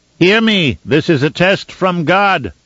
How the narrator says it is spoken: cried to the listeners below, his voice booming into the open space

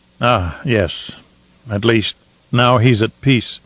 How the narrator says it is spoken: Shaddam said in a low, husky voice

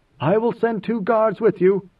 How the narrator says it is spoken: Inmayer called out

